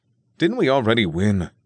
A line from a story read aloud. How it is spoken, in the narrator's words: Daryl grumbled